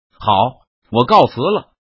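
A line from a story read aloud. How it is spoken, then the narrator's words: Stern shout. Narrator (Chinese): 一任堂厉声喝道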